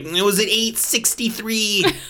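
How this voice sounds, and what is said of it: Exaggerated nerdy voice impression. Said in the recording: “this hyper nerdy guy going like ... That was my Conan O'Brien doing a nerd impression.”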